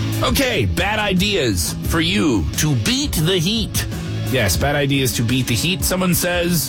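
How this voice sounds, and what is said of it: Usual voice. Nothing is said of it.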